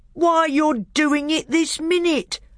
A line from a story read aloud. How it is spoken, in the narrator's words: bellowed Trumpkin